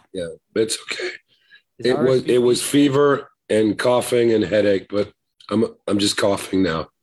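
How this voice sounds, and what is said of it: Hoarse, weak voice. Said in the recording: “My voice is kind of gone. I've been coughing.”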